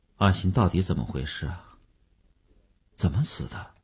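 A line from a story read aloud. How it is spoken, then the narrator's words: Muffled sulky voice. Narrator (Chinese): 声音还是闷着气的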